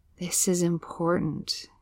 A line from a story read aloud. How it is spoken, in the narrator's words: murmur, not exactly sure why